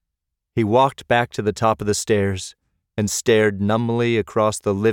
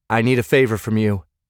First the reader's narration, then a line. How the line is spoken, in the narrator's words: said